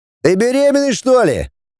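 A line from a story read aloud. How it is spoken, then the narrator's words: Shout. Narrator (Russian): крикнул Федя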